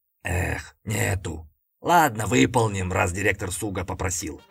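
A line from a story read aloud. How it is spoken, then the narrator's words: Huge dog sighing. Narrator (Russian): вздохнул огромный пес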